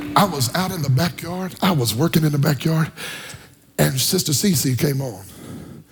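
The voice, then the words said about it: Hoarse, nearly lost voice. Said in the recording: “I don't have no voice. If you can't tell, my voice is gone today”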